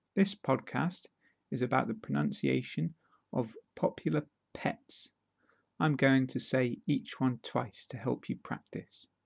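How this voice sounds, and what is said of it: British accent. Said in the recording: “British accent”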